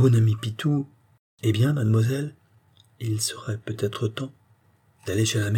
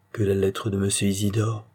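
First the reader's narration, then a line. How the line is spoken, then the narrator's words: Murmured. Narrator (French): murmura le messager d'amour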